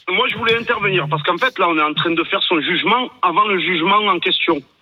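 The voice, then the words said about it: Slight regional French accent. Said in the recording (French): “avec ce petit accent”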